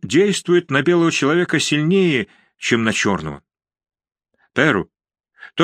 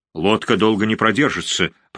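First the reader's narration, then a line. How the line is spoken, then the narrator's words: Grumbling. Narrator (Russian): проворчал он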